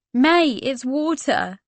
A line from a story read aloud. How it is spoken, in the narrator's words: she laughed